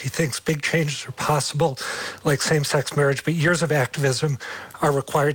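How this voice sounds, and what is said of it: Hoarse, strained, fading voice. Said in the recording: “I've completely lost my voice.”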